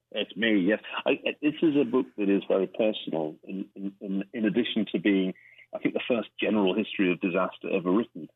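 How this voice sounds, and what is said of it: Scottish accent. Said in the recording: “I thought the accent was unusual for a reader ... a Scottish childhood”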